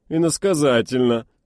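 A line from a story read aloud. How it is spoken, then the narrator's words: Chuckling, raised voice. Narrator (Russian): хохотнул Ювей и повысил голос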